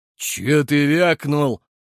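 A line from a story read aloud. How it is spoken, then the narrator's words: Roaring. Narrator (Russian): проревел Рыло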